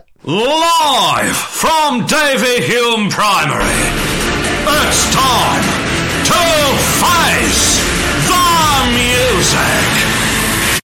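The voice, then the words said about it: Imitates a TV talent show announcer. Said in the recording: “do the X Factor voice ... do a little voice recording as the X Factor guy ... he sounds bob on”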